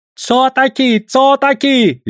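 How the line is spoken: Shrieking. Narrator (Russian): визжал Песотька

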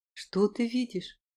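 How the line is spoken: Gentle question. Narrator (Russian): спросил мягко

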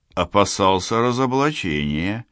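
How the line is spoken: Uncertain suggestion. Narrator (Russian): неуверенно предложил Борис

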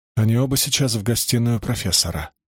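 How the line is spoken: Quiet voice. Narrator (Russian): сказала Мари тихим голосом

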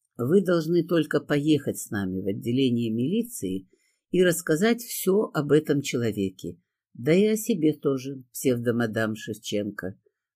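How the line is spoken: Calm speech. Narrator (Russian): спокойно сказала

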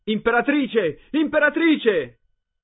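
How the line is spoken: Children yelling loudly. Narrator (Italian): i ragazzini cominciarono a gridare a squarciagola

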